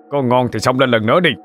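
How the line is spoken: Loud shout. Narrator (Vietnamese): Độ Sẹo quát lên

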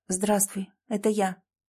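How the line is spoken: Quiet, even, businesslike. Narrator (Russian): тихо проговорила Александра, и ее собственный голос прозвучал неожиданно ровно, почти по-деловому

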